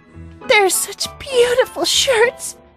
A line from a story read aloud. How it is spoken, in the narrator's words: she sobbed, her voice muffled in the thick folds